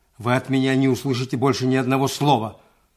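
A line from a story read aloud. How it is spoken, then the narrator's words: Rude. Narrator (Russian): грубо проговорил Иван Дмитриевич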